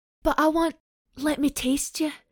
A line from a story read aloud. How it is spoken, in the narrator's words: she begged now